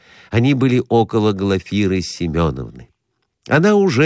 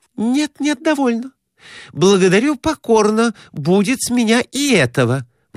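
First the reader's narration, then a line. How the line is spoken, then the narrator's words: Exclamation. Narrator (Russian): воскликнула Глафира Семеновна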